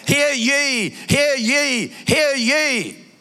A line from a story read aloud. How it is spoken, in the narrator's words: shout